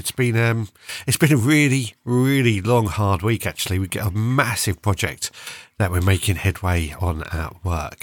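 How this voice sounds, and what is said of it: Croaky, sore voice. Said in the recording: “You can probably hear in my voice, I'm just sounding a little bit croaky, a little bit sore.”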